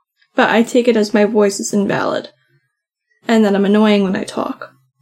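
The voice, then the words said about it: Very soft, quiet speaking voice. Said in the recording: “I have a really soft voice normally. So people probably just don't hear me.”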